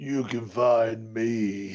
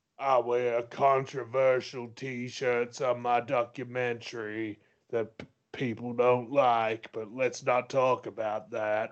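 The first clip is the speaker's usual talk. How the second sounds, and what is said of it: Rough Undertaker impression. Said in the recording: “My Undertaker impression needs a little bit of work.”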